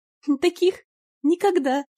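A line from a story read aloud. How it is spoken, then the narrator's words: Giggling older girl. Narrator (Russian): хихикнула одна из сестер чуть постарше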